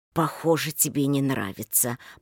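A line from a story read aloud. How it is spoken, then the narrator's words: Tense mutter. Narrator (Russian): пробормотал Михаил, почувствовав некоторую напряженность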